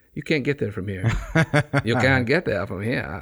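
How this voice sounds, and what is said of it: Put-on Maine accent. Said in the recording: “Your Mainer accent? ... Right.”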